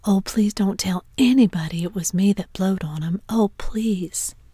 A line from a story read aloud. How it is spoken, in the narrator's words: Huck sprang up and exclaimed